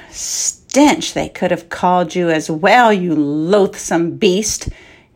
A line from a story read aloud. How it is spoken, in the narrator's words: he mused bitterly, speaking loudly